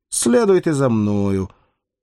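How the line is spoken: Dry, curt. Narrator (Russian): сухо произносит гаишник

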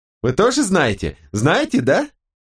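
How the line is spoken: Sly laughter. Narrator (Russian): Она коварно рассмеялась

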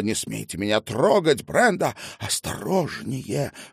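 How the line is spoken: Breathless, wincing in pain. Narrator (Russian): выдохнула Ханна и поморщилась, потому что руку заломили еще сильнее

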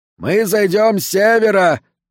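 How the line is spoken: Shouted. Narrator (Russian): прокричал Микс

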